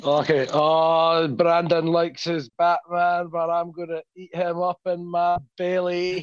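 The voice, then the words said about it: Comedic movie character voice impression. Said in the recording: “I could probably do a Fat Bastard impression because it's quite easy for me ... He just sounds like Fat Bastard.”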